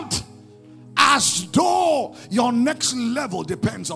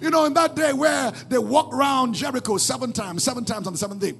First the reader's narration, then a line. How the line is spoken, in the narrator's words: they shouted